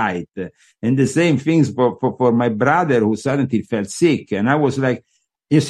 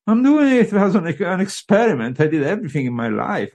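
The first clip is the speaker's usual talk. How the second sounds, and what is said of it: Very British accent. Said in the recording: “here with a very British accent”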